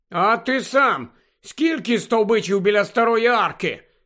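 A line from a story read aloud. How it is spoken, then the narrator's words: Angry grumble. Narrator (Ukrainian): сердито буркнула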